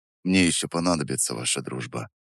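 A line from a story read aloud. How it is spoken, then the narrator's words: Quiet. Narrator (Russian): тихо добавил я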